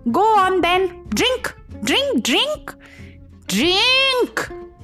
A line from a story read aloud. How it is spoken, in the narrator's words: snapped